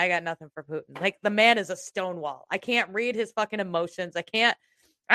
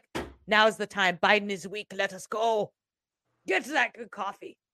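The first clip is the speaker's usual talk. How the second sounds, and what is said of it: Imitates another person's voice. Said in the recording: “That's the best Putin impression I got.”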